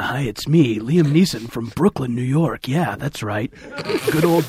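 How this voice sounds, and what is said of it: Weird put-on American accent. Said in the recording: “Liam Neeson doing an American accent ... do a weird American accent?”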